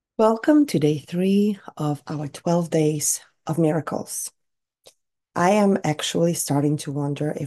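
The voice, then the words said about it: Raspy, recovering voice. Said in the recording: “my voice is recovering ... something going on in my throat ... you're still getting my raspy voice”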